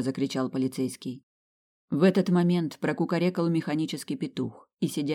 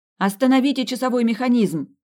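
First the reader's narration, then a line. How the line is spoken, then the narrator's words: Shouted. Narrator (Russian): крикнула она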